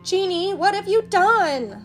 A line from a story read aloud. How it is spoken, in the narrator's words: Aladdin shouted